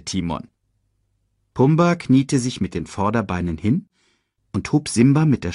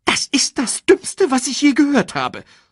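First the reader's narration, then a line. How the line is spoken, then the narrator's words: Hissed angrily. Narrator (German): fauchte Timon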